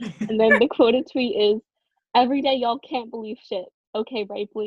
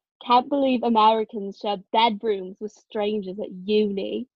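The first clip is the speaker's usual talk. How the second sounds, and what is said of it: Put-on British accent. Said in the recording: “I'm gonna read it in a British accent.”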